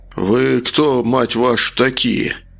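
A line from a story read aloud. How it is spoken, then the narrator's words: Strained, barely controlled panic. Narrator (Russian): процедил, пытаясь совладать с нарастающей паникой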